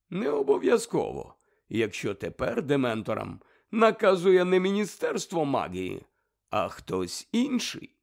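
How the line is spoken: Calm objection. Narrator (Ukrainian): спокійно заперечив Дамблдор

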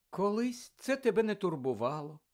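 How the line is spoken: Sad. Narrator (Ukrainian): сказала Мірта сумно

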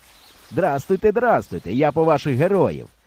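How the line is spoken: Cheerful. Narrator (Ukrainian): весело сказав асистент

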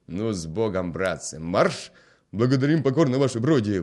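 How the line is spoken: Soldiers shouting farewell. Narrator (Ukrainian): викрикнули москалі на прощання

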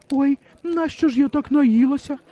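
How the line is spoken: Despairing cry. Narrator (Ukrainian): розпачливо скрикнула Оксана

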